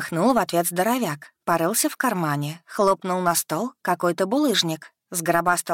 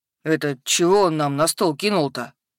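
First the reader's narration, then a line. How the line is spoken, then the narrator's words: Puzzled troll grunt. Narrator (Russian): Озадаченно хмыкнул тролль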